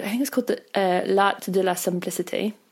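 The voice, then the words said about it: Bad put-on French accent. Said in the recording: “that was a really terrible French accent.”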